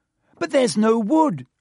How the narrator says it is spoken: Hermione cried

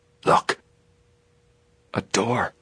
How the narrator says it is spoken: Joe whispered tensely

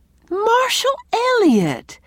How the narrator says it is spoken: cried Anne

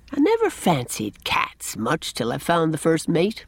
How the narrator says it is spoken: he remarked, to the accompaniment of the mate's tremendous purrs

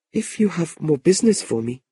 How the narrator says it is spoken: Madeline said anxiously

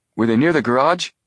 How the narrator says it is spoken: Joe exclaimed

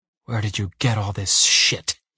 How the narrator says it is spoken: He hisses

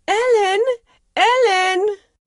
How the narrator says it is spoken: she cried out

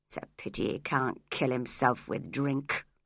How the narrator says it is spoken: muttered Heathcliff

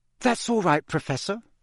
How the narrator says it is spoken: Hermione gasped, massaging her throat

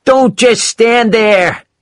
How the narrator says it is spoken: shouted Gould

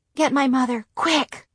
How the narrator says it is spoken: whispered

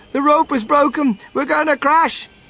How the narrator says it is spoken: TV cried out

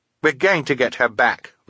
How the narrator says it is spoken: Violet said firmly

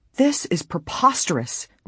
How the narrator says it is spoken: Nancy cried, her blue eyes flashing

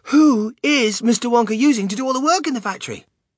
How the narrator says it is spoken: cried Charlie

